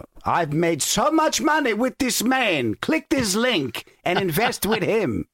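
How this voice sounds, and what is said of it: Made-up foreign accent. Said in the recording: “I'm making up the accent.”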